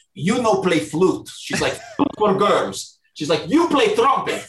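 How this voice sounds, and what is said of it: Deep Russian accent. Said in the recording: “she had a deep like Russian accent”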